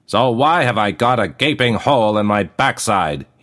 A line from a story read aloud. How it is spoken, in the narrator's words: he roared